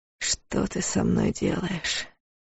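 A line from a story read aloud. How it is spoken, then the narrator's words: Hoarse whisper. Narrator (Russian): хрипло прошептал Дарс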